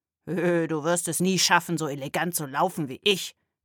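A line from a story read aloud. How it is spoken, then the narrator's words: Hissed. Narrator (German): zischte jemand neben ihm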